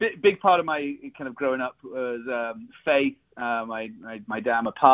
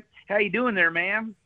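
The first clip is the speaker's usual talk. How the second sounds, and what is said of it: Put-on Texas Southern drawl. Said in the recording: “Texas Southern drawl there was pretty good”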